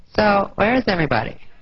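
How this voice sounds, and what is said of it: Imitates a high school girl's voice. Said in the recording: “my impression of a girl in high school I invited to a party at my house.”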